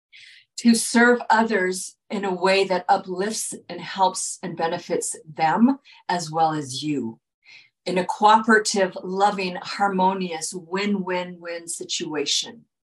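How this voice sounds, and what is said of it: Strained, fading hoarse voice. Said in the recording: “I'm losing my voice here, I've been talking a lot”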